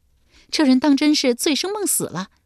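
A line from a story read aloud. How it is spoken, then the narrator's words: Laughing. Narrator (Chinese): 俊娘笑道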